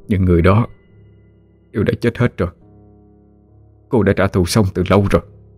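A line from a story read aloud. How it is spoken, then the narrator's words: Quiet voice. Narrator (Vietnamese): Cậu nhỏ giọng nói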